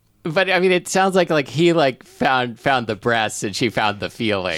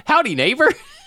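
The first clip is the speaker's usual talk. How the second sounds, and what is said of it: Cheery cartoon neighbor voice. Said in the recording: “in a Ned Flanders voice.”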